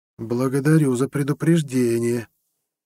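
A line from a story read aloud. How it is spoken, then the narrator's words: Uncertain reply. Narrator (Russian): неуверенно вымолвил ответ чиновник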